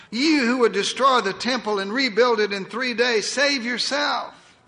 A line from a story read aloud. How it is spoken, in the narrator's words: they cried